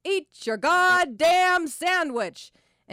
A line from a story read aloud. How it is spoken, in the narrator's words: an echo of our exasperated father, she bellowed it grandly, holding each word but the second for two beats